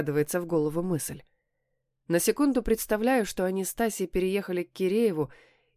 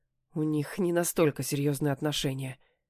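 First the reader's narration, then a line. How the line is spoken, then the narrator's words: Smirking. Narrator (Russian): ухмыляюсь я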